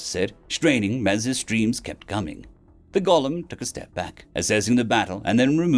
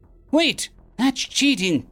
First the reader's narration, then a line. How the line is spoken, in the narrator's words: the gunsmith cried